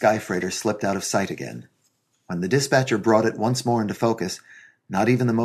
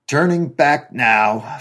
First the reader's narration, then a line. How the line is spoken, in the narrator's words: Frank bellowed shakily above the motor noise